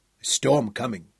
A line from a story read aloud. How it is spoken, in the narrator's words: Abelie grunted